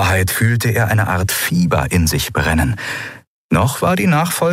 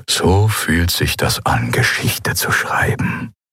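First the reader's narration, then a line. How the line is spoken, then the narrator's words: Murmur. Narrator (German): murmelte Minister Tagat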